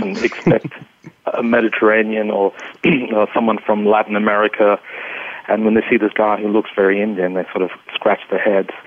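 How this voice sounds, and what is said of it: Australian accent. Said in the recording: “a bit of an Australian accent”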